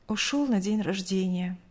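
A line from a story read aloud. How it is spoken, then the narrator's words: Curt sighing answer. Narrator (Russian): коротко ответила мать, вздохнув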